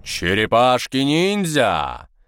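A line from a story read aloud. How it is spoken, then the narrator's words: Loud singing, then laughter. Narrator (Russian): Громко пропел брат и рассмеялся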